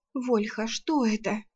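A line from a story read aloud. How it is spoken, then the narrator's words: Whisper. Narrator (Russian): шепнула Арсана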